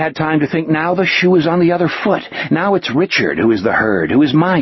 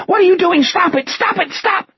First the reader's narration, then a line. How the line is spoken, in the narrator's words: Richard was still shrieking